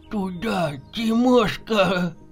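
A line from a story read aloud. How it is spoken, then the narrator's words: Trembling voice. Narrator (Russian): Дрожащим голосом произнес Дремов-старший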